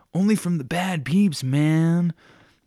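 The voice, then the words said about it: Stoner voice. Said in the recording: “in a stoner voice”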